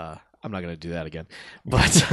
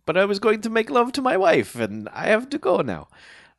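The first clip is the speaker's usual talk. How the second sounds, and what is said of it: Put-on Russian accent. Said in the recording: “your accent is so spot on ... It's good accent ... It's bad. It's a bad accent.”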